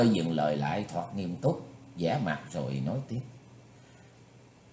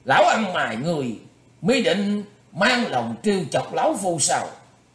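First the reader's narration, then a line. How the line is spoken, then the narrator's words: Furious loud shout. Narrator (Vietnamese): nộ khí xung thiên lên quát lớn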